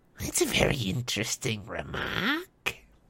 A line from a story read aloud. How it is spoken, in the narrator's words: sneered a voice, softer than the others, but more evil